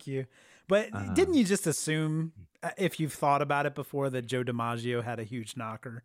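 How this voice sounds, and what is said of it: Usual voice. Nothing is said of it.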